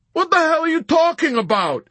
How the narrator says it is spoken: Yossarian shouted at her in bewildered, furious protest

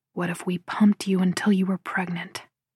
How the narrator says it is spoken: He whispers

